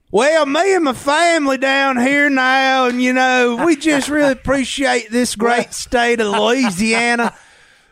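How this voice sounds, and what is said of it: Imitating Brian Kelly's fake Southern accent. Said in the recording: “Brian Kelly's fake Southern accent”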